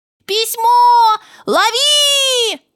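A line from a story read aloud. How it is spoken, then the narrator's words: Shouting. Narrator (Russian): закричал Миша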